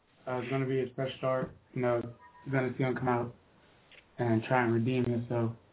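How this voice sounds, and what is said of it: Hoarse, nearly lost voice. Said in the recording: “I hate talking right now because my voice is almost gone from that game that I was coaching.”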